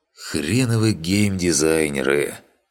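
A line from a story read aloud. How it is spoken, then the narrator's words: Grumbling mutter. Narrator (Russian): пробурчал Андрей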